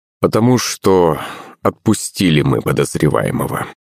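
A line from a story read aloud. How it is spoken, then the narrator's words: Sigh. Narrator (Russian): вздохнул следователь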